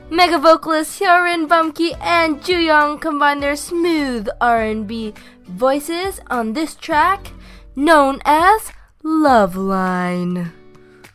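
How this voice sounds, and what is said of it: Radio announcer voice. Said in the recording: “Pardon the radio voice”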